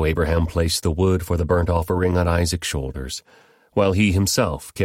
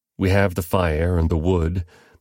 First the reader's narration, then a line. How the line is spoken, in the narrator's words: the boy said